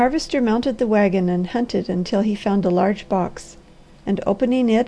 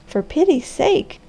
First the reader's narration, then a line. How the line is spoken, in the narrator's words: cried the girl